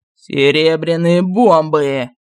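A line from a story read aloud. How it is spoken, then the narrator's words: Growled. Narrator (Russian): зарычал царь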